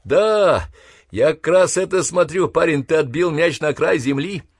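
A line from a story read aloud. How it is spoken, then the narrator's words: Joyful laugh, on phone. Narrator (Russian): радостно рассмеялся и сказал в сотовый телефон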